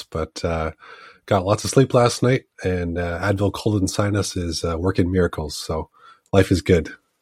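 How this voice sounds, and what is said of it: Sick, congested voice. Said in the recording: “I'm a little under the weather. You can probably hear it in my voice”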